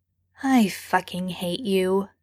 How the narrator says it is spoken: Sam mutters

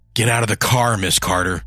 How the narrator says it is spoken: snarled

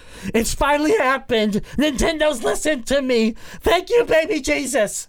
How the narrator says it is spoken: I'll just be screaming

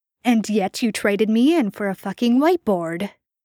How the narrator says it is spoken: Jensen spat, only then realizing how seriously pissed he really was

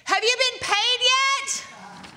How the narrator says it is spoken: He screams the question

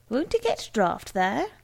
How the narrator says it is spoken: the Pukey man only laughed and said

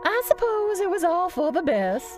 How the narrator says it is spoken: she said with a wistful sigh

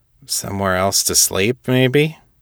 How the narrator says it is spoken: Vargan chuckled again

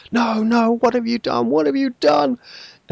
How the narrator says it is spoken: Casa, a dark-haired woman, runs to two of the other fallen girls, her hood falling back, dark hair spilling out, and she cries

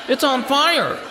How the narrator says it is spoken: Someone yelled

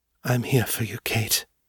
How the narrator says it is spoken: Morgan whispered, her breath coming out warm against Kate's ear

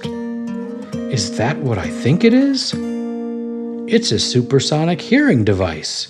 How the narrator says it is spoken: exclaimed together

